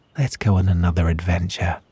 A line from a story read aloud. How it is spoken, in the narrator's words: whispered